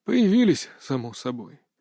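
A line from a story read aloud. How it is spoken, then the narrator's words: Sighing. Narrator (Russian): вздохнул Гелерштейн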